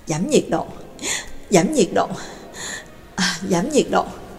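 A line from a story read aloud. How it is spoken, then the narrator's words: Agitated muttering. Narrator (Vietnamese): Nhạc Dương kích động, miệng lẩm bẩm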